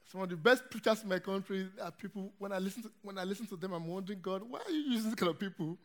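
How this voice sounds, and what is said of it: Nigerian English accent. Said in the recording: “I come from Nigeria, as you can hear from my accent.”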